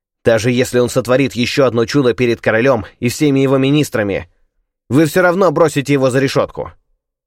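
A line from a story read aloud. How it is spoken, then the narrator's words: Lama shouting. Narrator (Russian): Какой-то лама крикнул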